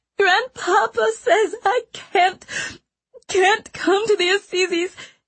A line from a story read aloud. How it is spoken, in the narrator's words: she wailed